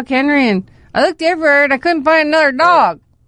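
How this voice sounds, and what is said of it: Impression of her elderly dad. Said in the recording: “Is that your impression of your dad?”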